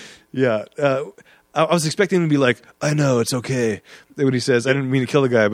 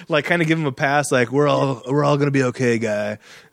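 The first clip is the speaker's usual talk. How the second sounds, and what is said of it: Laid-back surfer-dude movie-star voice. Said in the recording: “I don't know why I'm doing that voice. ... that was more the surfing movie, Keanu.”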